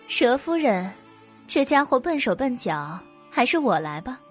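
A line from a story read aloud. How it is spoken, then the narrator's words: Laughing. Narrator (Chinese): 白姬笑着对贵妇道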